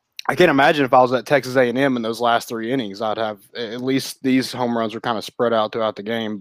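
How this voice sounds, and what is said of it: Hoarse, strained voice. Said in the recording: “I'm a little hoarse. ... I'll kind of blame you for losing my voice”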